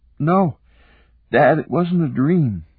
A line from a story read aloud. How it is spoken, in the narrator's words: Eric said, yawning again